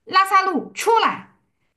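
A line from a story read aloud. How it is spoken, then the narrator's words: Prayerful calling. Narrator (Chinese): 那是祷告，是说话和祷告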